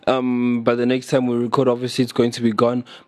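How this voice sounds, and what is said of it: Unwell, phlegmy voice. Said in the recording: “as you can hear, my voice is not well. But yeah, I'll just phlegm”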